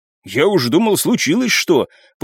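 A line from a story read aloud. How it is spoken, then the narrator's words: Exclamation. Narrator (Russian): воскликнул он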